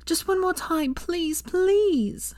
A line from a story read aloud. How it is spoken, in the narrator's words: Hermione begged